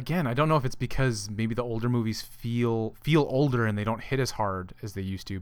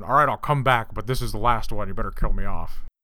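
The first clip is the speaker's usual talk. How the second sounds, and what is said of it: Harrison Ford impression. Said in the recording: “I can't do a good Harrison Ford impression. ... That is the perfect Harrison Ford.”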